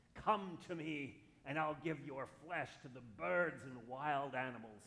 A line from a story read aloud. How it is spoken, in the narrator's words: he roared